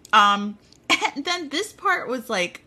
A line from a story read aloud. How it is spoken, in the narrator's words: I screamed